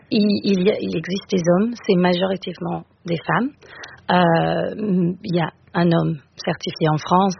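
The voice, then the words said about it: Slight British accent in French. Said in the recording (French): “mon petit accent. Je suis britannique à la base”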